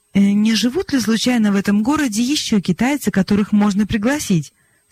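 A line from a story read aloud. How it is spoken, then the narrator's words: Plain. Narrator (Russian): спросила Глэдис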